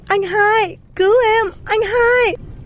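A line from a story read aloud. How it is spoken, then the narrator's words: Tearful shout while swimming. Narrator (Vietnamese): Hai mắt cô đỏ hoe, vừa bơi vừa hét lớn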